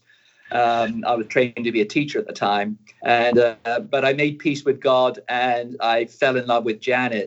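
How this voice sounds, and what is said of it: Slight British accent. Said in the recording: “I still have a bit of a British accent”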